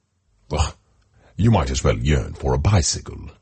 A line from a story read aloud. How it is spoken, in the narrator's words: scoffed the ambassador, feeling thwarted